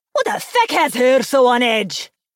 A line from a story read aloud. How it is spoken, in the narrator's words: Hilda yelled in frustration